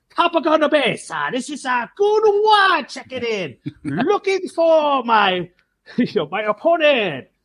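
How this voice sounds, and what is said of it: Put-on exaggerated regional accent. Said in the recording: “So I put on my best, you know, red accent.”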